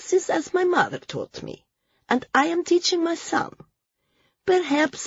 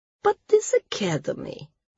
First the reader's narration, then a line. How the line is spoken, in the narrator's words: the speaker said gently